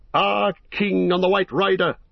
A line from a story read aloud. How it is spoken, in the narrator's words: they shouted